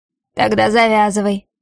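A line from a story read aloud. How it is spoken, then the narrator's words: Rough bark, man. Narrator (Russian): грубо рявкает мужчина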